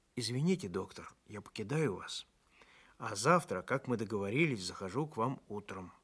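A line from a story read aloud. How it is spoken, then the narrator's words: Quiet. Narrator (Russian): тихо сказал мне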